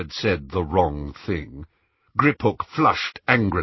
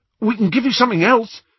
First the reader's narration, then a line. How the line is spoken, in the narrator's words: said Ron eagerly